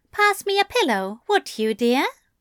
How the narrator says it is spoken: he asked sweetly

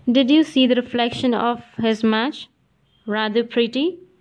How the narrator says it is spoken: asked Adela

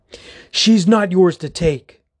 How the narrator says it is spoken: Theodore snaps

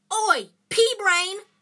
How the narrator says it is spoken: yelled Ron from the other side of the chamber

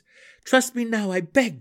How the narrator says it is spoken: Drizzt pleaded

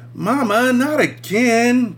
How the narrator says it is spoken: Brenda whined

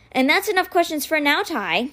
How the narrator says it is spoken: Kate said cheerfully

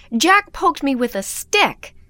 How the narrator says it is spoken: Sam comes to the door howling

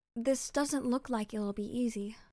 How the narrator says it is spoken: she murmured pensively

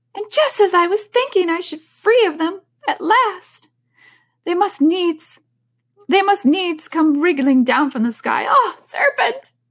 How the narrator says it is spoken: continued the pigeon, raising its voice to a shriek

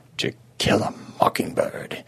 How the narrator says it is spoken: he murmured

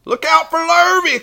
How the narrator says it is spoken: cried the cows

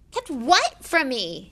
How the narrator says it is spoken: Harry said eagerly

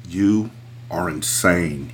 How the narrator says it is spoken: he spat

